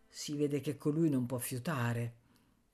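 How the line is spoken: Contemptuous murmur. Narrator (Italian): un altro bandito mormorava con disprezzo

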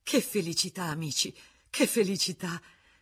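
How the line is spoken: Panting, tired and joyful. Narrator (Italian): ansimava di stanchezza e di gioia

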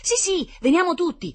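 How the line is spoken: Fair-haired boy shrieking excitedly. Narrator (Italian): strillò il biondino per l'entusiasmo

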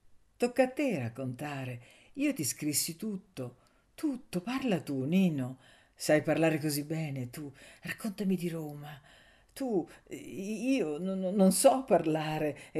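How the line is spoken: Troubled murmur. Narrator (Italian): ella mormorò turbata

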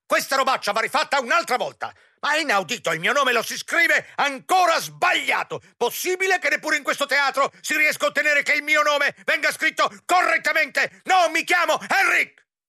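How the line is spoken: Angry shrill exclamation. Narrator (Italian): esclamò con voce rabbiosa e stridente

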